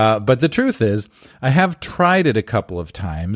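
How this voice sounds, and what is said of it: Usual voice. Nothing is said of it.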